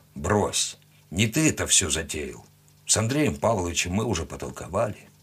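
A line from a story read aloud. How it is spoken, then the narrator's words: Quiet. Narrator (Russian): тихо сказал он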